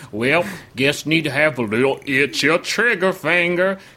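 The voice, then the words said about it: Amateur actor's inconsistent put-on accent. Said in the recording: “a Nebraska community theater actor be like ... because he doesn't know which accent he's doing”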